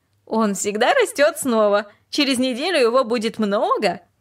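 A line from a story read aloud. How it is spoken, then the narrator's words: Laughing, amused. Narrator (Russian): она только рассмеялась и сказала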